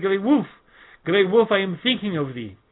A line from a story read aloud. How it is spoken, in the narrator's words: all at once remembered his promise and cried